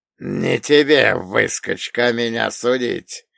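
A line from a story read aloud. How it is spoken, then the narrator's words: Hoarse rasp. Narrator (Russian): прохрипел Шуйский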